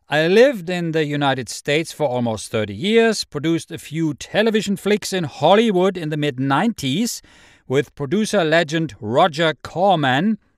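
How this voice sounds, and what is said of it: German accent in English. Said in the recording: “My accent probably gave me away. I am French. No, I am from Germany.”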